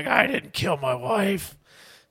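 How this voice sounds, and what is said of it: Good impression, rough smoker-like voice. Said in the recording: “that was a good impression ... did you just smoke like 8 Winstons in 2 minutes?”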